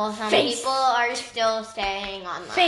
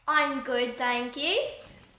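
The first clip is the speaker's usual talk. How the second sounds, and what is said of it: Put-on British accent. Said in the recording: “I can do a perfect British accent.”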